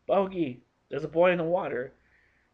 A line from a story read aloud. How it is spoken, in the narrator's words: a husky voice shouted